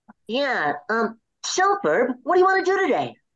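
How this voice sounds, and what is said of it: Cartoon character voice. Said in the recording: “Can you say that in Phineas' voice? ... do the voice for Phineas”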